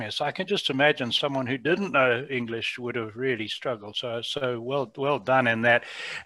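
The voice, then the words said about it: Southern African English accent. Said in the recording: “as you can hear from my accent ... I lived in Africa most of my life ... British English as spoken in Southern Africa”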